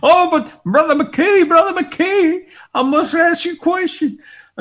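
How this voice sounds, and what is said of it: Imitated West Texas accent. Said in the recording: “Sorry if you're from West Texas listening to my imitation.”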